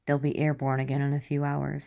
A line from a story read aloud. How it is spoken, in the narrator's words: he said